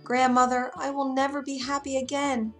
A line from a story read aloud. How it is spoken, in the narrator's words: The little mermaid cried out